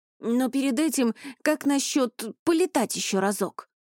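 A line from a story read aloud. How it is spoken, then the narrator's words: Obedient babbling repetition. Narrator (Russian): Пролепетал Ронни, послушно повторивший последнюю фразу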